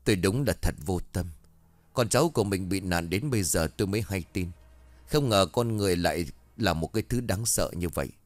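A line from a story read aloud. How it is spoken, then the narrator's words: Sighing. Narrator (Vietnamese): Ông Bình thở dài một cái rồi bảo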